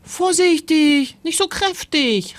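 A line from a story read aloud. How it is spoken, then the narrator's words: Shouted. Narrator (German): rief Timon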